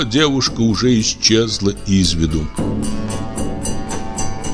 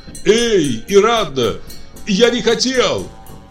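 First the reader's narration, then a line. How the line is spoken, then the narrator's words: Shouting after someone. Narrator (Russian): Затем крикнул вдогонку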